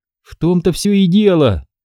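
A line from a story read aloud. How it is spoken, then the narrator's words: Exclamation. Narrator (Russian): воскликнула Ди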